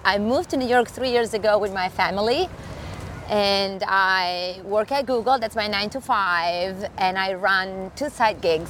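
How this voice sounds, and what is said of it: Italian accent. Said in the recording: “as you can tell from my accent, I am Italian.”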